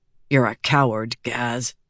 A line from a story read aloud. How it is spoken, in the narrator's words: said under his breath